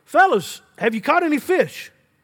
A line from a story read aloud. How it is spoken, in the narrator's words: He called out